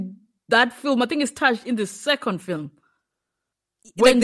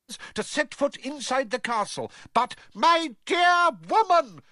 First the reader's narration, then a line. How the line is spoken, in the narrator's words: roared Fudge, who likewise looked angrier than Harry had ever seen him